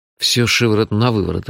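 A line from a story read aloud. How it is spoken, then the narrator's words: Bewildered. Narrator (Russian): растерянно сказал я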